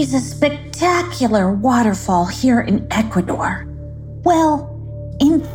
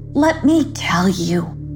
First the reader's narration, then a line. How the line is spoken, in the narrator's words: sighed Loki